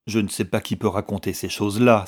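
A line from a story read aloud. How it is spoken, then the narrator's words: Exasperated exclamation. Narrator (French): s'écria Rory, exaspéré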